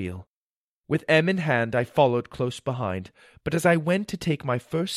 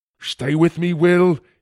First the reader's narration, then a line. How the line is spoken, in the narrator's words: cried